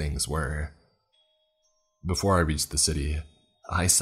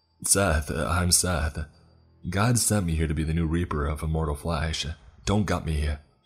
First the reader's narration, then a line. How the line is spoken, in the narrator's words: begged the creature